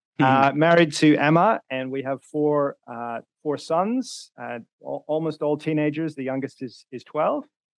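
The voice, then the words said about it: Mixed Northern Irish accent. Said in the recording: “I'm originally from Northern Ireland, although I've lived in a few different places, so my accent is not kind of pure Northern Irish. It's got a bit of everything, really.”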